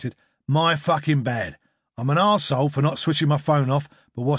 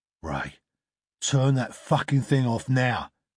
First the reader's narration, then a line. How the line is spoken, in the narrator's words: growled Donovan